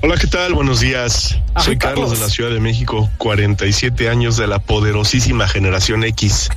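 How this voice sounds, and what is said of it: Radio announcer style voice. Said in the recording (Spanish): “voz de locutor ... Sí, lo haces muy bien.”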